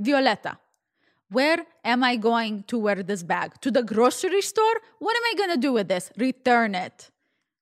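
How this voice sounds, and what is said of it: Poor imitation Russian accent. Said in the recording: “my really poor Russian accent”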